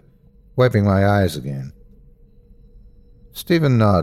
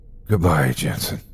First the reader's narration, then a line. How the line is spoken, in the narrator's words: he whispered hoarsely